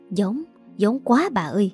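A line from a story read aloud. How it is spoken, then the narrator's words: Whispering. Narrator (Vietnamese): Có một số người quen biết lâu năm với cả hai bên thì thầm với nhau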